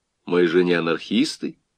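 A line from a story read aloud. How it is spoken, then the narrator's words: Plain. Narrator (Russian): сказал бородатый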